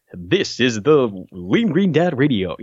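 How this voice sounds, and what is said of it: Put-on fancy radio announcer voice. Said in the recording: “I have like this radio voice ... I'm like doing this fancy voice ... You sound ridiculous”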